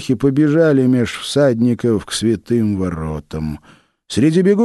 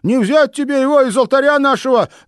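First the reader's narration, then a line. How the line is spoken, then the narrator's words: Shout. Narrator (Russian): закричал он Малюте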